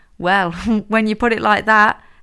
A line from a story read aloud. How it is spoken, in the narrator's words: Hazel laughed